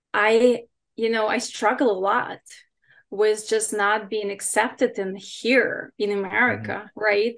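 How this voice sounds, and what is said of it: Non-native English accent. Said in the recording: “don't have any English ... because my accent, right? ... my English is not perfect still, and my accent is still there”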